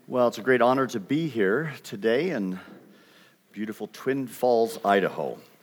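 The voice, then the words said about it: Canadian accent. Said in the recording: “You will pick up a Canadian accent. ... I still maintain it, and students still identify me as Canadian”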